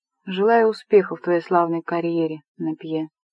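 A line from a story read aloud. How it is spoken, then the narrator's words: Quiet. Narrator (Russian): сказал он тихо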